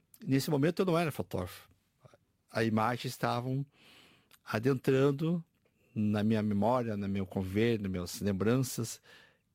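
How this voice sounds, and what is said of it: Brazilian gaúcho accent. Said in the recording (Portuguese): “sotaque gaúcho, não é? Só o ... sotaque ... Brasileiro.”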